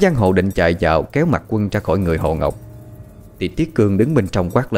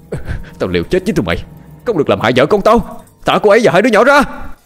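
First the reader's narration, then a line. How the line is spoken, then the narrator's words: Desperate nonstop shouting. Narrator (Vietnamese): Miệng anh không ngừng la hét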